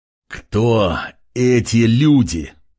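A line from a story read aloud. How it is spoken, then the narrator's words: Growled, clipped words. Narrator (Russian): прорычал, чеканя каждое слово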